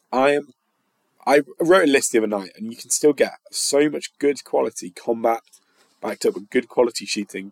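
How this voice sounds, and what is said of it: Tired, mumbling voice. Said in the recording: “You can tell I'm mumbling. You can tell it's been a long day.”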